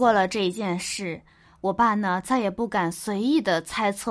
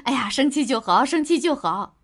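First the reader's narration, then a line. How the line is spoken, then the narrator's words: Smiling. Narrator (Chinese): 满脸的笑容跟她说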